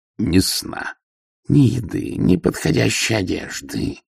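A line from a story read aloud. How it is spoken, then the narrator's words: Growled. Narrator (Russian): прорычала Ангва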